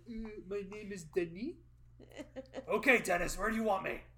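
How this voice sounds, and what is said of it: Put-on French accent. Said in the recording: “I would have done it in my little French accent.”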